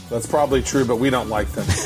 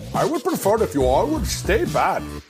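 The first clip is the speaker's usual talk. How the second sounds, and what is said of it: Put-on Indian accent. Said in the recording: “in your best Indian accent”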